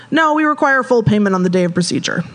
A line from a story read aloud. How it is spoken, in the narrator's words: she said